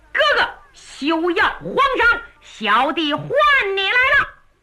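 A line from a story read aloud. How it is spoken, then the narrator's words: Shouting. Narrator (Chinese): 月亭高喊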